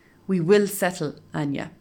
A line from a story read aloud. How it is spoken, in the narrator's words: tells me firmly